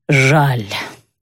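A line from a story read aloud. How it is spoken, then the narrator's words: Sighed by a doctor. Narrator (Russian): вздохнул врач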